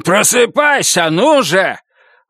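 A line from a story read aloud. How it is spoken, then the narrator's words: Impatient shout. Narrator (Russian): Не дождавшись ответа, крикнул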